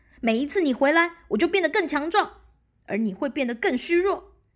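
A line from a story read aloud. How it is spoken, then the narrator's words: Calling out. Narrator (Chinese): 武士在他后面叫着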